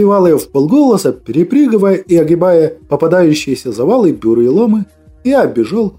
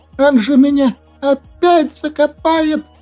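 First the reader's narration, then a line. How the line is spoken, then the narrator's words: Frightened creature whimpering. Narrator (Russian): Испуганно заскулил злыдень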